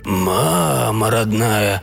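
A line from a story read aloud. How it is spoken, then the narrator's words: Stunned mumble. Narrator (Russian): пробормотал Уиллис, ошарашенно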